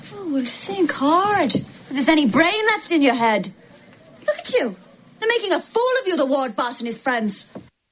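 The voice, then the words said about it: Attempted Irish accent. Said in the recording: “herself and Tom Cruise trying Irish accents in Far and Away ... a bad accent”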